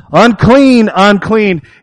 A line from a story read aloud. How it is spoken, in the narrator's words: yells